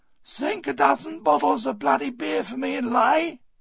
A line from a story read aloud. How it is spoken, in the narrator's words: he yelled after us